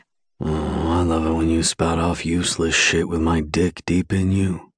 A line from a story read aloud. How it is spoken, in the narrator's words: he murmurs against my neck